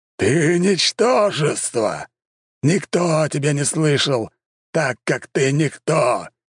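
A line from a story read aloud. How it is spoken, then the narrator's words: Roared. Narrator (Russian): Взревел он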